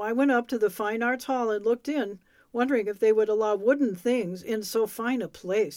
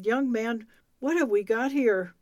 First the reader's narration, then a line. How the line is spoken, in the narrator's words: a dignified gentleman who greeted me kindly and said